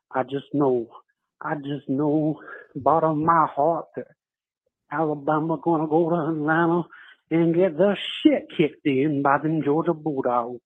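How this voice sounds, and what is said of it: Poor fake Cajun accent. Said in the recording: “That was the worst attempt at a Cajun accent... So bad.”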